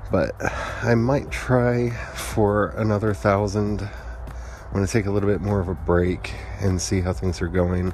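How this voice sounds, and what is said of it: Tired, out-of-it sounding voice. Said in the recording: “My brain is kind of toasty, and I'm kind of crispy at the moment, which I'm sure you can hear in my voice. I feel like I sound really out of it.”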